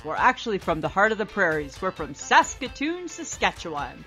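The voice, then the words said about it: Canadian accent. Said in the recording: “I don't know if you can tell from our accents, but we're from Canada.”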